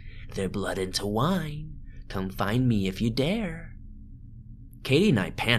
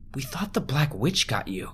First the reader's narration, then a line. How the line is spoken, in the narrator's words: Katie cries